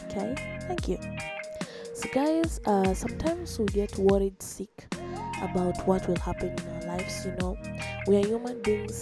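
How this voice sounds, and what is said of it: Voice affected by a cold. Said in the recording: “forgive my voice i've been getting uh, cold as of recent”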